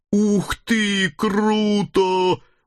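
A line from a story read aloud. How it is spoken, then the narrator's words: Guttural growl. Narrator (Russian): утробно зарычала Хельга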